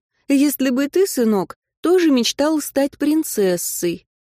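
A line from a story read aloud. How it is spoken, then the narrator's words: Tender, smiling. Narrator (Russian): мама ласково улыбается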